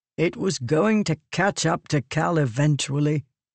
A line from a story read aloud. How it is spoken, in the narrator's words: Liren said, his tone morose